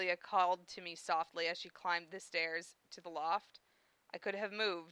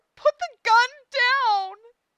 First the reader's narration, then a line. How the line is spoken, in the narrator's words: Her scream nearly splintered my brain in two